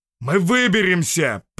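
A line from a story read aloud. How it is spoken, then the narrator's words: Roaring. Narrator (Russian): проревел сталкер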